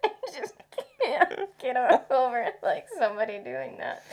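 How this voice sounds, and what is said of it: Usual voice. Nothing is said of it.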